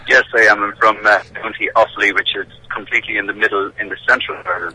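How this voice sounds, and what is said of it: Irish brogue, southern Ireland. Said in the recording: “it's the old Irish brogue coming across there, which is marvellous, sir”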